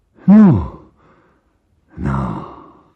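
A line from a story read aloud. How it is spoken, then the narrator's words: Nervous mutter. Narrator (Russian): забормотал бледный Мигуев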